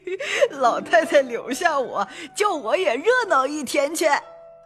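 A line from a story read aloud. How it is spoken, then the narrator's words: Old woman laughing. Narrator (Chinese): 刘姥姥笑道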